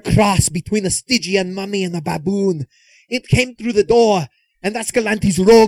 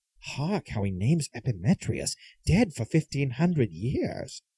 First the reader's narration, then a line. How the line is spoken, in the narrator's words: they whispered to each other